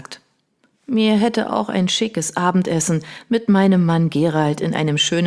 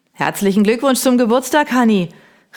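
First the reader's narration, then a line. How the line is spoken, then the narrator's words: Called out across fence. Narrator (German): rief mir unser Nachbar Hugo über den Zaun hinweg zu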